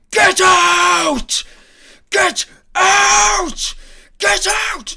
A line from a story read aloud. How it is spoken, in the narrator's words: he screams